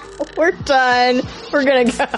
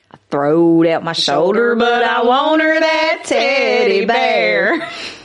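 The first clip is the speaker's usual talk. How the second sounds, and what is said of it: Put-on country accent. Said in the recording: “You got to do the accent too. It don't work if you don't.”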